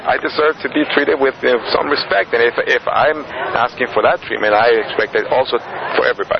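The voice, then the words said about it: Speaks with a noticeable accent. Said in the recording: “you have an accent of a certain kind ... Yeah, that is true”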